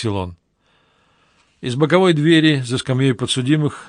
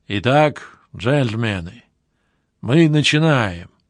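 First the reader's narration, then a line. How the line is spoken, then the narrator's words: Serious, heartfelt, quiet voice. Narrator (Russian): Свое вступительное слово Лоутон произнес очень серьезно, проникновенным, тихим голосом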